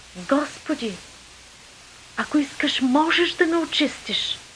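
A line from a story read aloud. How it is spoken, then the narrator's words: Leper pleading. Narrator (Bulgarian): човек, който беше цял прокажен, му се помоли, казвайки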